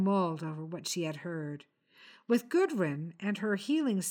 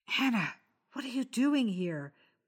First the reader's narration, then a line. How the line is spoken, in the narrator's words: whispered